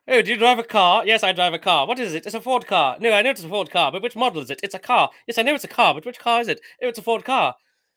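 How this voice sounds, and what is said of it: Poor put-on Essex accent. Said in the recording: “That's a really bad Essex accent.”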